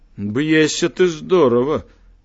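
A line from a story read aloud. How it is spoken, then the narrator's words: Laughing. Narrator (Belarusian): засмяяўся ён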